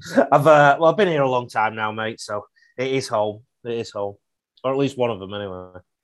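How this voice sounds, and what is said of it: English accent. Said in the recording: “I was doing quite a lot in England too, mate, as you can tell with this accent. I wasn't originally of this parish”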